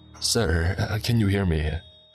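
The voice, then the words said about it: Panicky voice. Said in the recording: “The nurse asked in a panicky voice.”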